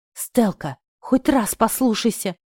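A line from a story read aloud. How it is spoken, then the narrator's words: Pleading whisper. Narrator (Russian): умоляюще прошептал Горыч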